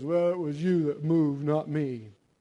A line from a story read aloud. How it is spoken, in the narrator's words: the husband gruffly says